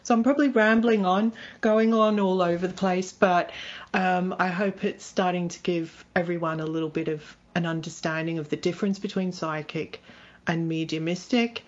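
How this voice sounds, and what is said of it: Slight Australian accent. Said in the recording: “I've got a little bit of an accent, which isn't English. I'm originally from Australia”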